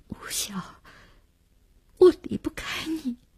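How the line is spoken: Choked, sobbing. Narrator (Chinese): 只哽咽了一句

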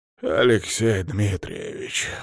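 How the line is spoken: Tired, puzzled. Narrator (Russian): устало произнес он, не скрывая при этом своего недоумения

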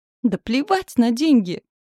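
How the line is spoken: Husband's thin shrill squeal. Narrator (Russian): взвизгнул муж тоненько

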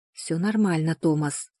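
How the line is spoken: Whispered. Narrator (Russian): шепнула она

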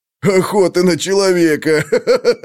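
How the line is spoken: Laughing. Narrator (Russian): Ублала снова засмеялся

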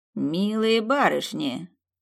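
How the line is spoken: Through gritted teeth. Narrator (Russian): процедил распорядитель

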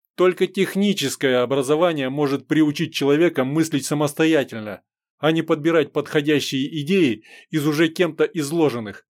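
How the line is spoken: Angry shouting. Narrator (Russian): кричал в ответ дядя, багровея лицом

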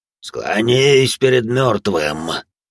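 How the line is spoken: Undead growl, mouth closed. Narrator (Russian): прорычала нежить, не открывая рта

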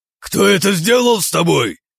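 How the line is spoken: Roaring. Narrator (Russian): проревел барон

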